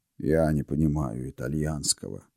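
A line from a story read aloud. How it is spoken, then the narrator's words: Gloomy mutter. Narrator (Russian): мрачно буркнул приор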